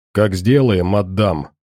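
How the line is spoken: Rough curt dismissal. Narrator (Russian): грубо отшивает святой

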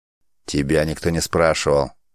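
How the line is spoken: Growled. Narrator (Russian): рыкнул Варжрук

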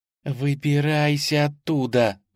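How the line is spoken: Hissing. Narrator (Russian): зашипела она

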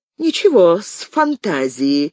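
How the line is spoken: Angry laugh. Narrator (Russian): зло рассмеялась она

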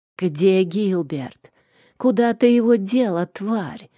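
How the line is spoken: Venomous hiss. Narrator (Russian): зашипела заловка, почище какой-нибудь змеи

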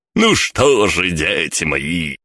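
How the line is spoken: Booming. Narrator (Russian): прогремел Гельмут

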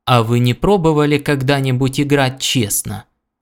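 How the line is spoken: Plain. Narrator (Russian): спросил Хелберил

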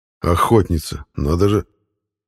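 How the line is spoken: Quiet remark. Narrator (Russian): негромко заметил Ивар

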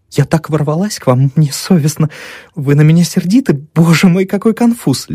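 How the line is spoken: Babbling. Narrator (Russian): лепетали алые губки

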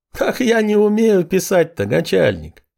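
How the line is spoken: Laughing. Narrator (Russian): Смеясь

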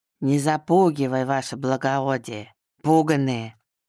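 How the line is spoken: Burring bass voice. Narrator (Russian): Картавым басом отозвался один из них

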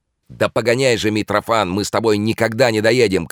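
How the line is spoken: Impatient shout. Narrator (Russian): крикнул Бобров нетерпеливо

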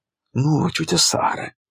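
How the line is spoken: Quiet. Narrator (Russian): тихо сказала она

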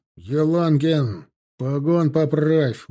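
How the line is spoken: Barked command. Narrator (Russian): рявкнул Тимофей

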